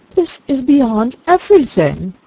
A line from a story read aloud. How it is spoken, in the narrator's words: exclaimed Eleanor